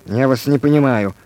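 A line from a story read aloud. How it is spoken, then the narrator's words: Rapid mumble. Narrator (Russian): скороговоркой пробормотал Иван Иванович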